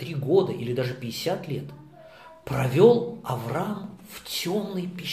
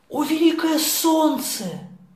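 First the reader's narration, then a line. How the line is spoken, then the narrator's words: Pleading. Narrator (Russian): взмолился Авраам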